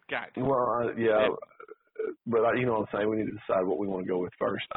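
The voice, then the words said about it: Rough voice from illness. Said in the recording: “I sound a little rough ... I'm on the road to recovery”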